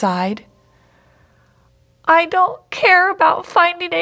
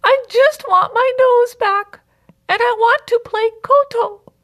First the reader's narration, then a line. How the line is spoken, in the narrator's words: the princess sobbed